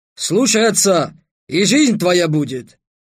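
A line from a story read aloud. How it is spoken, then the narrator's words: Barked. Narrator (Russian): рявкнул Васаб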